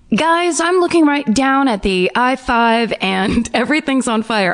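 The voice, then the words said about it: Exaggerated traffic reporter radio voice. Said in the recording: “Like I'm a traffic reporter ... I did a terrible radio voice”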